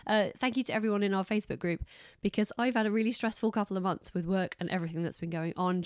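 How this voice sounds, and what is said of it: Congested, hoarse, fading voice. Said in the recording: “I'm stuffed up and I'm losing my voice”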